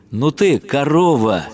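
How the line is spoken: Cheerful. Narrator (Russian): Весело

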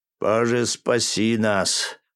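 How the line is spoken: Frightened breathless gasp. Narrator (Russian): выдохнул вахтенный офицер ощутив холод внизу живота

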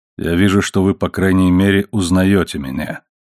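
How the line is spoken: Deep voice. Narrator (Russian): сказал Сакр-эл-Бар своим глубоким голосом

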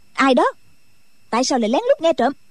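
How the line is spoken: Shouted. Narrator (Vietnamese): Đinh Mẫn Quân quát lên

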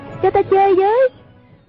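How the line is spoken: Crying out. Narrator (Vietnamese): kêu lên

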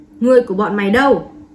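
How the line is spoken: Ferocious barked demand. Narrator (Vietnamese): Một thống lĩnh quát hỏi đầy hung thần ác sát

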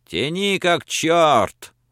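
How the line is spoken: Shout. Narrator (Russian): Француз Луи крикнул

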